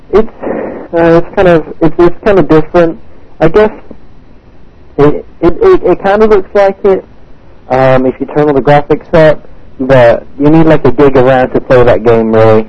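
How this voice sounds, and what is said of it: English accent. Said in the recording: “where are you from ... England ... Nice accent”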